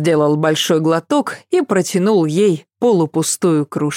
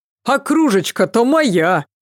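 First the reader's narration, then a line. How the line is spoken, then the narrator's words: Shouting after them. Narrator (Russian): крикнул Серега им вслед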